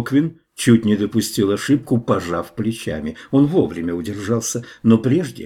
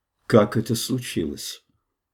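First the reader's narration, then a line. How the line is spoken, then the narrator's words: Extremely calm voice. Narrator (Russian): заданного леди Таней, чрезвычайно спокойным голосом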